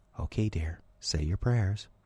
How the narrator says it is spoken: Kara's mother said ever so softly

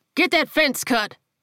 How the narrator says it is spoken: He barked back

